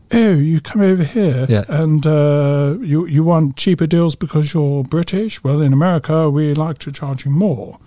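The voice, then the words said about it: Put-on British accent. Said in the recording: “I have a British accent when I'm American.”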